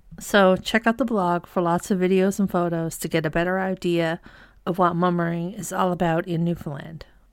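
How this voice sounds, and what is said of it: Voice in poor condition. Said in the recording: “as you can hear, my voice isn't very good, still.”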